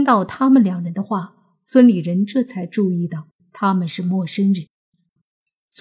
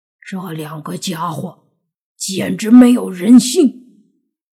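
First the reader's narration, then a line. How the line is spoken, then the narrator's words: Through gritted teeth. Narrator (Chinese): 泥巴也咬着牙说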